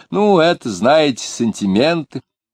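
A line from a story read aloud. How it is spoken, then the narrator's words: Offhand mocking after tears. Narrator (Russian): только что омыв пухленькое лицо свое слезами, говорит Муракуеву небрежно и насмешливо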